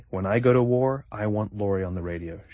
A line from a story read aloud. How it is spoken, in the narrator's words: she says